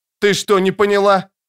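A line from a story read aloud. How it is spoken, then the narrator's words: Shout. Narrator (Russian): крикнул он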